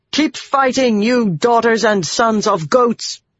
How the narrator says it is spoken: Birgitta yelled

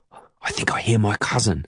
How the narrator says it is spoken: I whisper

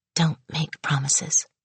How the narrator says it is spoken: she whispered

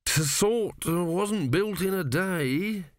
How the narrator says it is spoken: he mumbled

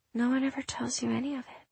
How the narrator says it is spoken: Devin mumbled

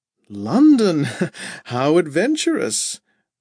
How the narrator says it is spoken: Rhoda laughed, covering her surprise

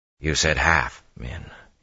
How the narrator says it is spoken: he said quietly

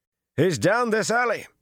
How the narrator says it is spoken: a man shouted

